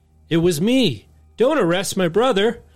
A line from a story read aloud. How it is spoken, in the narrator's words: Lou shouted